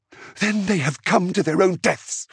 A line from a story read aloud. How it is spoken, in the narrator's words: Zuzuli spat